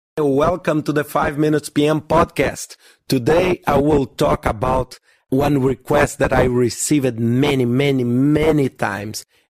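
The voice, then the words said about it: Hoarse, weak voice. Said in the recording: “My voice is still not working well, so I'd like to apologize again for the audio quality ... get out of this cold”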